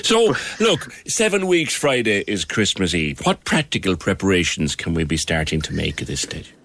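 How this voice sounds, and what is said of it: Irish Cork accent. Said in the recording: “your accent is so refreshing to hear... that beautiful Cork accent”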